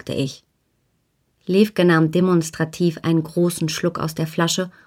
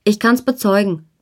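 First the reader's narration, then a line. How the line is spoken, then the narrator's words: Calling out. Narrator (German): rief Wolf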